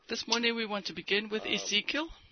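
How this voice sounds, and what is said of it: Voice with a slight cold. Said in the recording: “I have a little cold still.”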